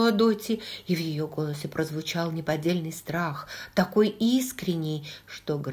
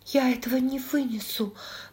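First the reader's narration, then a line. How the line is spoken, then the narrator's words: Suddenly weakened voice. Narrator (Russian): проговорила Дотти внезапно ослабевшим голосом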